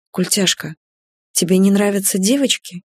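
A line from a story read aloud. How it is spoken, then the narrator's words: Quiet question. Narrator (Russian): тихо спросила Иджи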